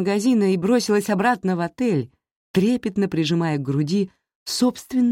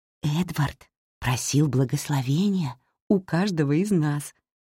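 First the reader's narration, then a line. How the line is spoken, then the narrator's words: Whispered report. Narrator (Russian): шепотом сообщила мне Эмили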